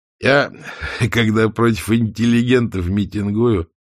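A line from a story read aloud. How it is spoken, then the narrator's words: Laughing. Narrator (Russian): рассмеялся Осип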